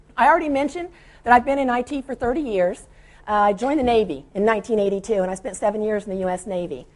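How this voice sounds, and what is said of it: Voice weak and breaking up. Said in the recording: “I'm allergic to something here ... my voice is like coming and going a little bit now”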